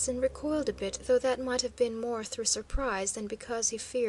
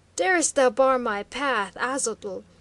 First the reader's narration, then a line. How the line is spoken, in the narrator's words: he cried hoarsely